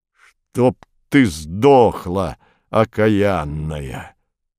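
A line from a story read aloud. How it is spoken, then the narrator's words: Fierce growl. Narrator (Russian): прорычал Портос, ожесточенно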